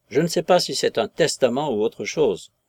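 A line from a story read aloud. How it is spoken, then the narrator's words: Grumble. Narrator (French): grommela M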